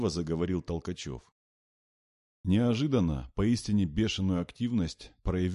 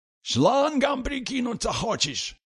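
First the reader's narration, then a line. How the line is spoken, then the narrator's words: Yelling. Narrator (Russian): заорал он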